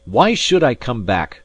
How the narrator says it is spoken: I cried

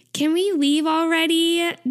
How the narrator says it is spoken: Taeyong whines

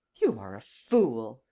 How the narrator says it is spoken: I exclaimed

